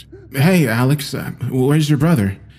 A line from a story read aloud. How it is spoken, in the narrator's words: I asked back